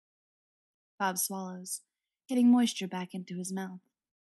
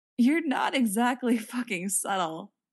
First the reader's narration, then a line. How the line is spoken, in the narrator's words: Frank says, and starts to giggle